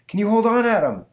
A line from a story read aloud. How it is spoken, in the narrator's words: shouts out Mr